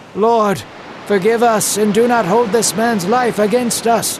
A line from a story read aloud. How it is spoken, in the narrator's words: the men cried out